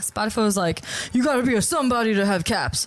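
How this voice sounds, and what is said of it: Put-on accent. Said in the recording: “Why'd I do that accent?”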